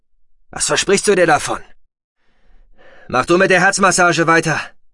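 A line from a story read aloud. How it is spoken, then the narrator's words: Harsh commanding tone. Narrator (German): befahl Roden mit harschem Ton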